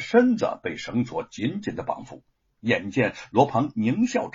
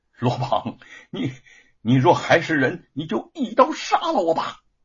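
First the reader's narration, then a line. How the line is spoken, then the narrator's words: Frightened, gritted-teeth shout. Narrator (Chinese): 玉凤芳心震颤，他不怕死，却惊恐将要遭受的折辱，咬牙喝道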